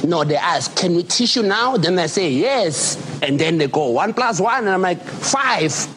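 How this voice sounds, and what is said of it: South African accent. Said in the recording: “I just love listening to this accent ... Love the South African.”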